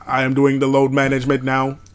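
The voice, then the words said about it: Robot voice. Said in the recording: “Robot voice.”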